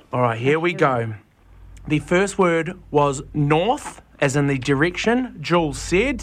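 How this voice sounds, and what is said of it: New Zealand accent. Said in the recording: “That would be the New Zealand accent kicking in”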